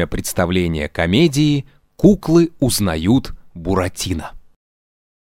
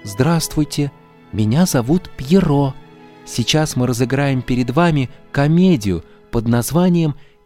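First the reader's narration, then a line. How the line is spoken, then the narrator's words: Sad. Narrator (Russian): сказал грустно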